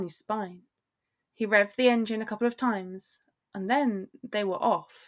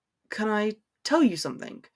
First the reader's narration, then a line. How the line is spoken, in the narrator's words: Draco's voice murmured through the Bluetooth